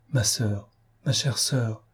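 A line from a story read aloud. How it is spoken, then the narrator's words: Murmured in the ear. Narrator (French): murmurer à l'oreille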